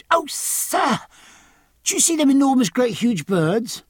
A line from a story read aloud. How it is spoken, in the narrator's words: the boy cried